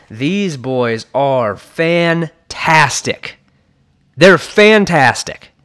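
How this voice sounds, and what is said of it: Excited, enthusiastic delivery. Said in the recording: “I hope you can hear the excitement in my voice.”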